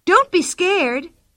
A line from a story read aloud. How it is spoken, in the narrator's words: cried Pippi